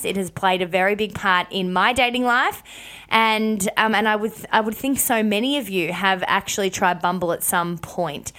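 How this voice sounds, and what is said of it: Congested, hoarse voice from cold. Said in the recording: “apologize for my voice and throat. I have never, ever had a cold hit me quite like this. So forgive me if I've got a funny voice”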